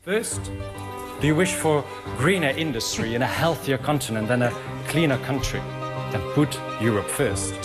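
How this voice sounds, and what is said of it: Accented English. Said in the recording (Dutch): “Dat is een accent van deze man.”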